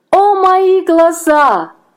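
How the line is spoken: Screaming. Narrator (Russian): закричала она

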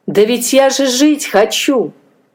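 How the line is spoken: Exclaim. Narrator (Russian): воскликнула

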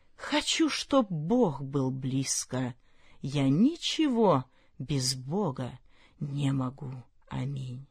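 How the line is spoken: Whisper. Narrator (Russian): Бамбук душой склонился низко-низко, склонился, как былинка на лугу, и прошептал

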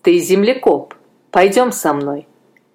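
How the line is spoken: Stern. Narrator (Russian): строго сказал

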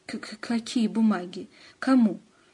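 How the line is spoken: Sudden stammering. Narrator (Russian): Антон вдруг стал заикаться

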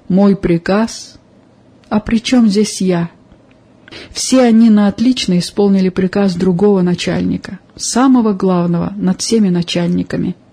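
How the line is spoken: Calm, unusually friendly, smiling. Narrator (Russian): с несвойственной ему доброжелательностью, улыбнулся и спокойно ответил

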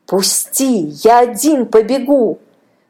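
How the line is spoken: Boy shouting. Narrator (Russian): кричал мальчик

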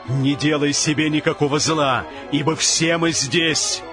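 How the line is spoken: Loud proclamation. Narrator (Russian): Павел возгласил громким голосом, говоря

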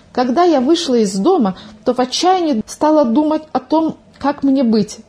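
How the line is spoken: Agitated, excited. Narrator (Russian): взволнованно начала свой рассказ Милка

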